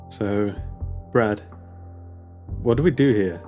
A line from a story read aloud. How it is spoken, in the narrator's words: Her voice shook